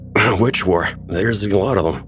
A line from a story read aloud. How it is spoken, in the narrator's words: he slurred